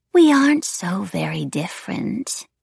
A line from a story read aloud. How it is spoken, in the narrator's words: breathed